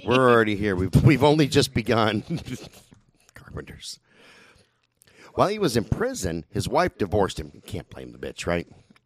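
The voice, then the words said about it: Hoarse, failing voice from sore throat. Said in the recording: “bad fucking sore throat. I'm losing my voice.”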